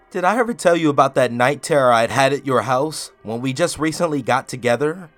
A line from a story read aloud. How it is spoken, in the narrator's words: I asked him with a little laugh